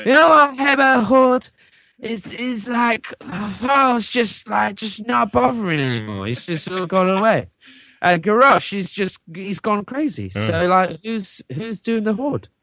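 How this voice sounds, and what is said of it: Bad fake drunk slurring voice. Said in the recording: “This is a terrible drunk impression. ... It's really bad.”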